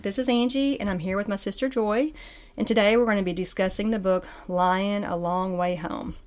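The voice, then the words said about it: Out of breath speaking. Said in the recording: “I'm out of breath.”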